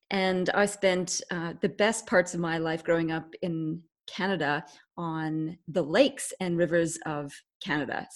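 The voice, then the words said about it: Canadian accent. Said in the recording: “I was born in England, but grew up in Canada, so that my accent is Canadian.”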